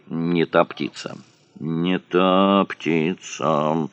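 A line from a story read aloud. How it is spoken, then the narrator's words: Muttered. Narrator (Russian): бормотал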